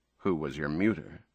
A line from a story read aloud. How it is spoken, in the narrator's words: Jason asked